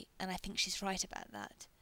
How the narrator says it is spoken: he says, adding almost angrily

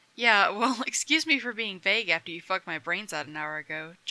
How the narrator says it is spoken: John says with a little laugh

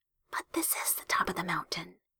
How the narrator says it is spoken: Hiromi whispered

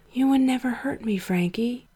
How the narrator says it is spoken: he whispered

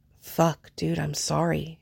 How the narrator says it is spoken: Adrian said quietly

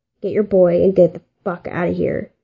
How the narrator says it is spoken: Dean growled

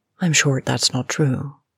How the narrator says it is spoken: she said evenly

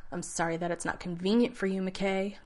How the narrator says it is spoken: John spat at him

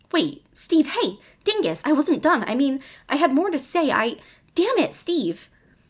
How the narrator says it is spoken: Robin called after him frantically

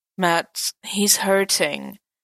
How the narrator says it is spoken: Natasha sighed

